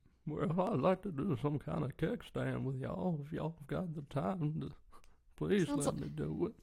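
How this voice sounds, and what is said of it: Elderly Southern voice, more grandpa. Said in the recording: “I'm trying to think what an old lady would sound. ... It's a little more grandpa than it is grandma”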